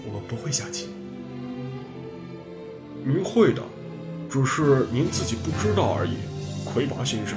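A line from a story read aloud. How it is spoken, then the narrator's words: Low voice. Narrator (Chinese): 低声说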